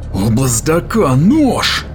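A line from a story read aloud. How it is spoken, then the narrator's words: Barked while bleeding. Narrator (Russian): рявкнул он, истекая кровью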